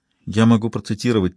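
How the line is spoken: Quiet speech. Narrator (Russian): тихо проговорила Лили

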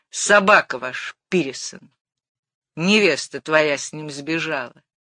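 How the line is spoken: Rude. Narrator (Russian): Зина грубо перешла на

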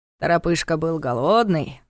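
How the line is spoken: Grumbled. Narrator (Russian): проворчал Ястребов

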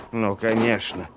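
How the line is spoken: Grumble. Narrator (Russian): проворчал Владислав

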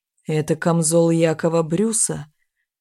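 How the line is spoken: Hoarse question. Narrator (Russian): хрипло спросил Сингшо

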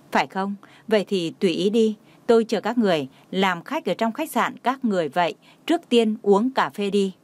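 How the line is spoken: Smiling. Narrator (Vietnamese): Hy Thần mỉm cười nhìn anh nói

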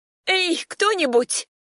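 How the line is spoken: Shocked shout. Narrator (Russian): Опешив от увиденного, закричала

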